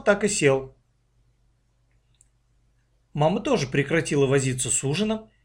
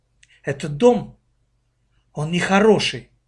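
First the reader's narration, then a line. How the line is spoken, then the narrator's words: Exhaled, older girl. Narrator (Russian): выдохнула старшая дочь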